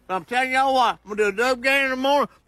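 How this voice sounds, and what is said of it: Drunk, mumbly Southern voice. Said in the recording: “That's drunk. and there is a kind of a mumbly white guy in the South ... mumble to the point you can barely understand them ... kind of like a Cajun accent ... Kind of, but drunk for sure.”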